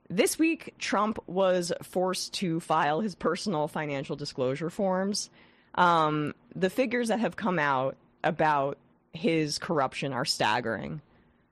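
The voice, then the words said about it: Congested voice with vocal fry. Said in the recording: “I have a head cold ... I'm sorry if I have this vocal fry ... I've got a bit of a head cold”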